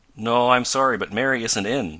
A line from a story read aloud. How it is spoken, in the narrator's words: said Mrs